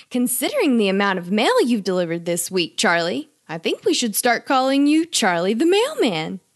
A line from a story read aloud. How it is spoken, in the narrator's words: mom laughed